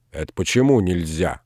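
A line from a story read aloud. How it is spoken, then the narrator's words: Offended question. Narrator (Russian): обиженно спросил Передонов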